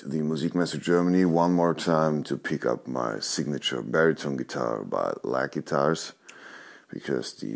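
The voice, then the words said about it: Tired-sounding voice. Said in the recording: “Maybe you can hear in my voice that I had not that much sleep in the last days.”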